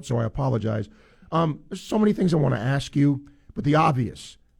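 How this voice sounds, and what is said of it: Hoarse, sore-throated voice. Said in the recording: “apologize for my voice. I've got a sore throat,”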